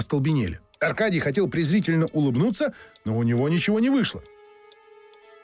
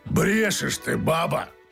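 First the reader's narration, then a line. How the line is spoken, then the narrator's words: Anguished growl. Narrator (Russian): сокрушением прорычал Феогност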